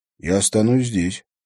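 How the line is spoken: Even voice. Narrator (Russian): ровным голосом сказал Олег

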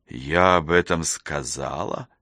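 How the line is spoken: Quiet, to herself. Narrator (Russian): Тихо, будто сама у себя, уточнила она

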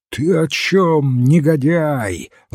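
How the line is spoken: Fiery shout. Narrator (Russian): закричал огнедышащий поэт

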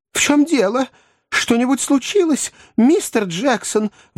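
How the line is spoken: Anxious inquiry. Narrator (Russian): взволнованно осведомилась миссис Бардл

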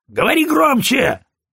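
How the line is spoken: Barking. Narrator (Russian): рявкнул Фрейзер

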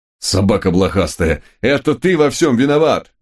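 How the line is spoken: Roaring in a strange voice. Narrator (Russian): не своим голосом взревел мой конь

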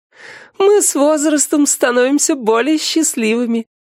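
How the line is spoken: Laughing. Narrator (Russian): рассмеялась верховная правительница

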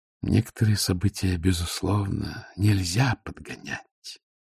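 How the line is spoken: Gentle remark. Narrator (Russian): мягко заметил ветеринарий

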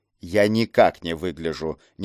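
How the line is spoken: Displeased grumble. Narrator (Russian): недовольно проворчал в ответ голос

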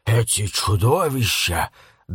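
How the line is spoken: Whisper. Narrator (Russian): добавил он шепотом

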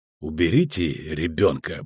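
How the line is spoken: Gruff mutter. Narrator (Russian): буркнул ведьмак

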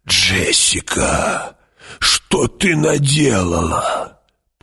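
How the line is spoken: Old woman moaning. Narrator (Russian): простонала старая правдовидица

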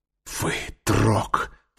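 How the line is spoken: Whisper. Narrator (Russian): прошептала она

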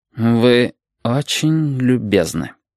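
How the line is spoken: Slow. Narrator (Russian): медленно сказал пастор

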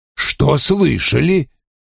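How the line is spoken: Rude answer. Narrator (Russian): грубо ответил Вульф

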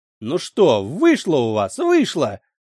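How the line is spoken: Choking laughter. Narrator (Russian): Дариана захлебывалась хохотом, словно кашлем

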